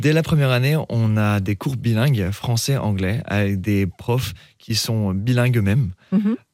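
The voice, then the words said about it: Slight English accent in French. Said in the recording (French): “vous avez un petit accent anglais”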